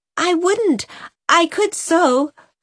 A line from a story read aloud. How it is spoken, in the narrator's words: cried Nan